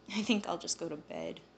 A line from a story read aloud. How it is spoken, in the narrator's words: I sighed